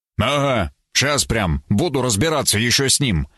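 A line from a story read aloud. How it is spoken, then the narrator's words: Muttered under breath. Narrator (Russian): выдохнул я себе под нос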